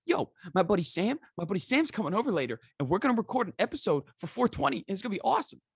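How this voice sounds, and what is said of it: Imitates another person's voice. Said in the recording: “That was the best impersonation I've heard of Joey yet.”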